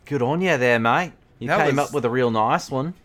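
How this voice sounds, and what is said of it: Put-on Australian accent. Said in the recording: “my Australian impersonation is pretty solid”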